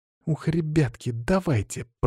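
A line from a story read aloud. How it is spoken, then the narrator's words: Through gritted teeth. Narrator (Russian): процедила сквозь зубы Лена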